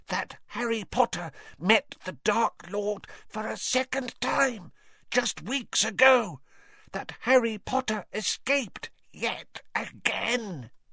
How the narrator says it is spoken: he said hoarsely

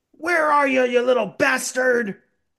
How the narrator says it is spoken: the Santa also yells out

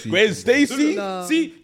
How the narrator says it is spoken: I cried

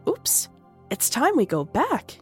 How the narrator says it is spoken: yelped Dao

